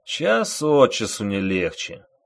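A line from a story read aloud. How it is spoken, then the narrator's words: Sighing. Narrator (Russian): вздохнул старшина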